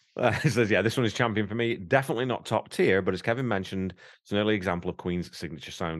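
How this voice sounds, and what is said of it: Noticeable non-Canadian accent. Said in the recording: “I'm a Canadian as well... even though I've got this stupid accent.”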